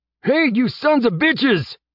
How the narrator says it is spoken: Jeb shouted at the top of his lungs

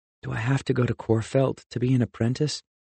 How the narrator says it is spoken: he asked quietly

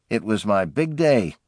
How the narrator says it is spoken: remembered bitterly

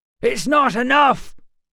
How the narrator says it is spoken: Matt shouted

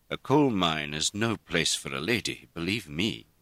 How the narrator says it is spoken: Robert said gravely

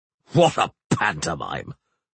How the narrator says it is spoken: Beholt spat

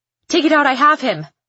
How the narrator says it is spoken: shouts

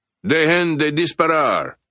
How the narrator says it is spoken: boomed an amplified voice from the chopper

